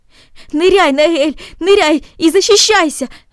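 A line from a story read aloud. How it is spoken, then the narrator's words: Shouting. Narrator (Russian): закричал он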